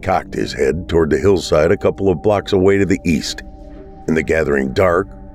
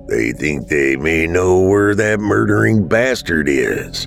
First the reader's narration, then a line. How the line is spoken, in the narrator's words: Dad growled